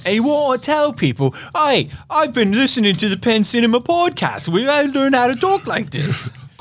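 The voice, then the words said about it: Fake British accent. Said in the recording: “talking with our little accents ... people are talking in fake accents ... your bloody accent ... He'll talk British to you”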